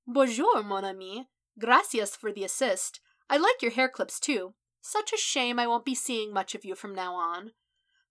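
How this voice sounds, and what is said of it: Rising voice, put-on French accent. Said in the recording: “his voice rising in something of a French accent”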